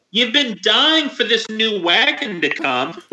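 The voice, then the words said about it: Mom character voice. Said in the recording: “Good mom voice... Nailed it. Absolutely nailed it.”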